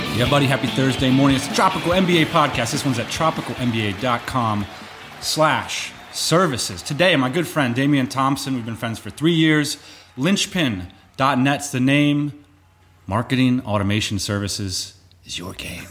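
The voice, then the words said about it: Announcer-style radio voice. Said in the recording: “I love when you put the radio voice on.”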